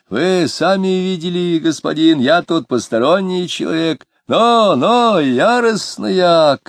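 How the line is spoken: Shout. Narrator (Russian): крикнул он

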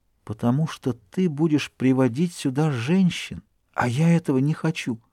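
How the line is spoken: Soft, tender whisper. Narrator (Russian): Тогда она тихо, нежно прошептала

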